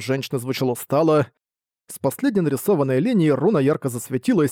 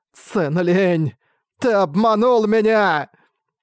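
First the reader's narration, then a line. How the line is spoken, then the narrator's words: Shrill hateful scream. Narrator (Russian): пронзительно прокричала она полным ненависти голосом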